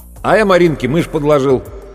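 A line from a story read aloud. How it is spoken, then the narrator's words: Loud. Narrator (Russian): громко сказал Серега Цаплин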